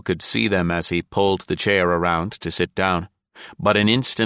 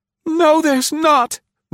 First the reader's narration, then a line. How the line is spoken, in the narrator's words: Nancy wailed